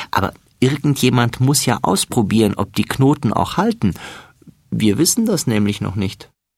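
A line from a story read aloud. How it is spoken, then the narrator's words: Laughing. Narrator (German): lacht Florian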